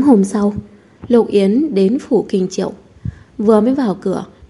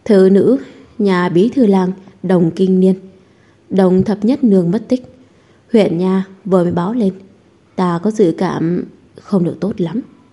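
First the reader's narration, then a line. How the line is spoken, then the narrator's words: Sighing, speaking. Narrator (Vietnamese): Tôn Húc thở dài một hơi, nói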